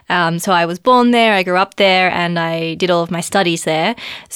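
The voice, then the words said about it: Australian accent. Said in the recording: “as you may be able to tell by my accent, I'm originally from Australia”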